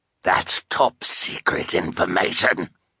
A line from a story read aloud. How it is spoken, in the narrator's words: Olaf growled